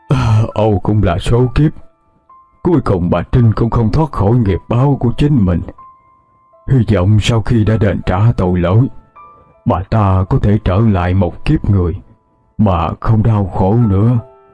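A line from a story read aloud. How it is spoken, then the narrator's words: Resigned sighing. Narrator (Vietnamese): ông Tư cũng chỉ biết thở dài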